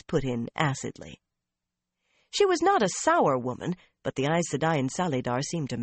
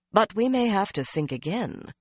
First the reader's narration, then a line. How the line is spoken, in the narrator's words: Melaine went on calmly